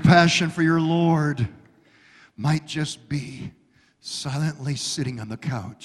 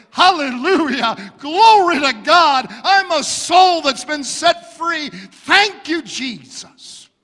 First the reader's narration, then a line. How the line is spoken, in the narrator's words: It might be expressed with shouting